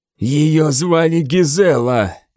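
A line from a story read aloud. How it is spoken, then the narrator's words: Hissing. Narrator (Russian): прошипел Годвин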